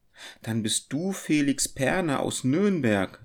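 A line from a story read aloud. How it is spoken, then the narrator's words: Calling out, woman. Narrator (German): rief sie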